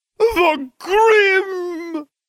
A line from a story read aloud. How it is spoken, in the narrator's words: Trelawney cried